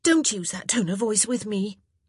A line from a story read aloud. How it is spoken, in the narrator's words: Daphne snapped back